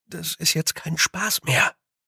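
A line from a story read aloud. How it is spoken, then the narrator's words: Whisper. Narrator (German): flüsterte er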